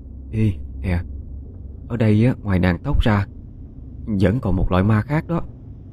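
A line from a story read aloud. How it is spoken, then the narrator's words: Whispering. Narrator (Vietnamese): Trúc lên tiếng thì thào nói với Quanh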